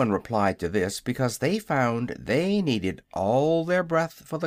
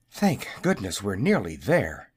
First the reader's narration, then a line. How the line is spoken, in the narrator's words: panted the little wizard